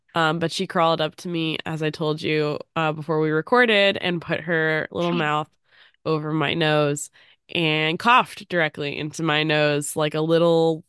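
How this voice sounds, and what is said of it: Voice changed by a cold. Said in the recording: “I have a cold, so if my voice sounds a little different, that is why.”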